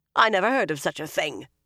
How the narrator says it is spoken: the Amyrlin barked

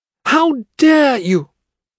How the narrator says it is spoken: She yelled

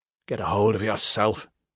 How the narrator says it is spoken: he half-whispered

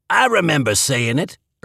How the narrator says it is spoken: Irv snapped

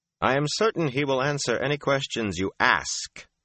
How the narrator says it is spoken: Rand said sharply, emphasizing the final word

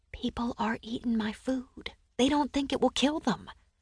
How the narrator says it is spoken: rose on my toes to whisper in his ear

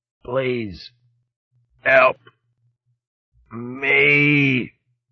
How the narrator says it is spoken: His own voice sounded distant, strange to him, as he croaked out

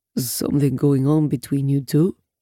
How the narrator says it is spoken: He asks gruffly, but I don't detect a single bit of censure, just curiosity

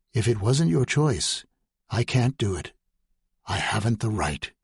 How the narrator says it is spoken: say in a gentle voice

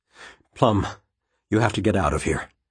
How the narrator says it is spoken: he said quietly

